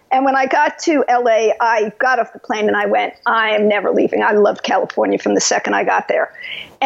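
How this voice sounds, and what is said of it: New York accent. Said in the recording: “I was brought up in New York, as you could tell from my accent.”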